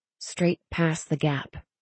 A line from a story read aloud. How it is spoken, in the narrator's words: murmuring